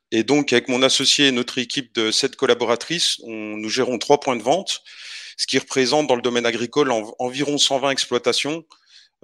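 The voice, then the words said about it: Eastern French regional accent. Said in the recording (French): “j'ai pu comprendre à ton accent que tu n'étais pas tout à fait du Nord ... Non, plutôt, plutôt de l'Est ... dans le, Jura, donc dans l'Est de la France”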